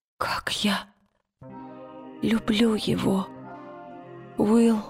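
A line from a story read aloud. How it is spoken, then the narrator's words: Broken whisper. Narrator (Russian): прошептала она прерывающимся голосом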